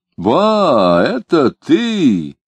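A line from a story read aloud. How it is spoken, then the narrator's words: Very loud shout. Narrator (Russian): крикнул Лютов так громко, что заставил прохожих обернуться на него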